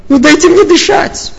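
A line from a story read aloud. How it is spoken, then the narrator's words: Shouted. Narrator (Russian): прокричала мама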